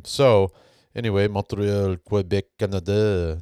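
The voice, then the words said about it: Put-on Quebec-style accent. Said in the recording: “That's pretty good. I think it's a pretty good accent.”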